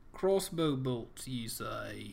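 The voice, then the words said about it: Puts on an accent. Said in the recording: “I sometimes fall into different accents.”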